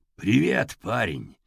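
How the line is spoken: Suddenly low, hoarse voice. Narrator (Russian): Голос его вдруг стал низким и хриплым

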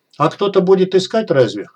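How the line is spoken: Grunt. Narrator (Russian): хмыкнул

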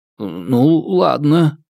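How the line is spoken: Grumble. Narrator (Russian): буркнул я

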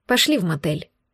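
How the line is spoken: Quiet. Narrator (Russian): тихо вымолвила

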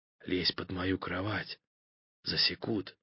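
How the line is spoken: Whisper. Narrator (Russian): прошептал

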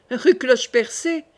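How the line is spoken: King exclaiming. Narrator (French): s'écria le roi

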